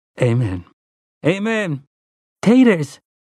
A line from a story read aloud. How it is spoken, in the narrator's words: cried Tia